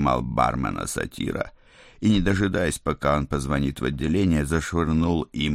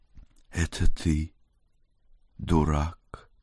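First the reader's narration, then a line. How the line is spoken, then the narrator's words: Tender purr. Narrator (Russian): нежно промурлыкала она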